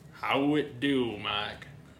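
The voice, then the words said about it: Bad put-on Southern accent. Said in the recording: “worst southern accent I've ever... I'm gonna talk in it for the entire podcast”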